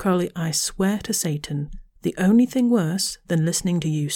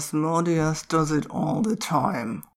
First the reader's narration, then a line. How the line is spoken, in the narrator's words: Eric muttered